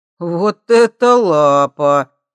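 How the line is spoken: Drawling. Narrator (Russian): протянул он

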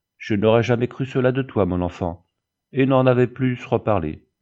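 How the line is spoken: Sad. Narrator (French): Le maître avait ajouté tristement

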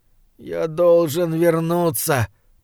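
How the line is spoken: Moan. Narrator (Russian): простонал он

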